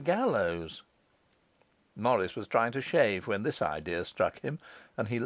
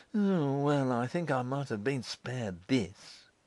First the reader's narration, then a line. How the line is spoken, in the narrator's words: he said bitterly